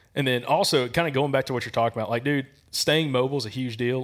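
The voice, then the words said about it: Mild Southern Alabama accent. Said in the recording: “can you not tell by my accent? I'm like, it's not super thick, but I got an accent. ... I'm like, Alabama.”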